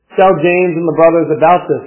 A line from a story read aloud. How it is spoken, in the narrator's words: said